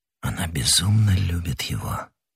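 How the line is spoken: Whisper. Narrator (Russian): прошептал он

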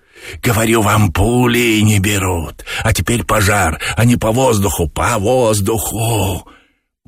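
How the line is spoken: Hissing. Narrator (Russian): Боба шипел

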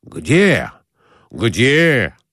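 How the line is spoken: Excited exclamation. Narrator (Russian): воскликнул Николай Иванович, оживляясь

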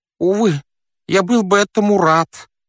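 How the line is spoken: Wheezing. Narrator (Russian): просипел он

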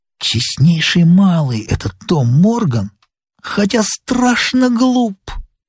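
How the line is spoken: Candid whisper. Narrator (Russian): Сильвер откровенно шепнул мне

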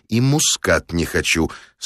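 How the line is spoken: Quiet but firm. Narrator (Russian): сказал я негромко, но твердо

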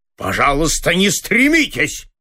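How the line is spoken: Angry interruption. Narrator (Russian): зло прервал его директор

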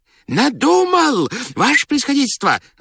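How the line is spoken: Joyful shout, strange voice. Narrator (Russian): закричал он радостно, не своим голосом

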